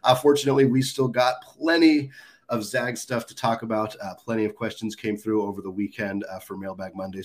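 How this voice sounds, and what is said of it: Congested, stuffy head-cold voice. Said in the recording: “I am feeling a little bit better, but I'm sure you can hear in my voice still getting over one of those nasty January head colds”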